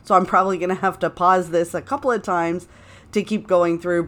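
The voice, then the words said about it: Congested voice from a cold. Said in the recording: “I caught the most epic cold ... I started to feel sort of my throat scratching a little bit ... my voice might sound a little different and why I'm really struggling not to cough”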